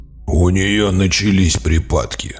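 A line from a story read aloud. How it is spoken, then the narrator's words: Growl. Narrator (Russian): прорычал Гарлан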